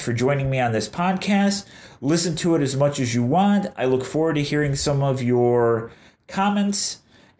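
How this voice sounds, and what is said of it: Nasally, congested voice. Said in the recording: “please forgive me of my nasally voice... I'm having a struggle breathing, so I have a nasally voice.”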